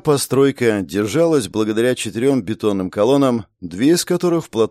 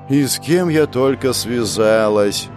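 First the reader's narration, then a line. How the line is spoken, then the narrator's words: Groaning. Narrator (Russian): простонала Женя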